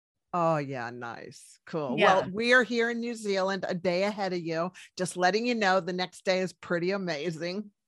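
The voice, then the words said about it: American accent. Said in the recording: “you sound very American.”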